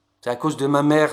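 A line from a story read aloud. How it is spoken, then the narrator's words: Plain. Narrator (French): j'ai dit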